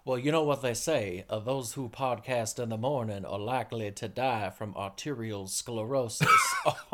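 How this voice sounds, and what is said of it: Poor put-on Louisiana drawl. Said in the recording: “my crappy Louisiana drawl”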